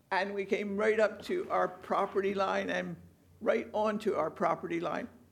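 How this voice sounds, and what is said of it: Slight Philadelphia accent. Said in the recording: “Philadelphia ... The accent's still there a little bit.”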